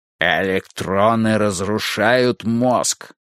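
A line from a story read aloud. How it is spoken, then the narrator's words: Plain. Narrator (Russian): сказал Фариш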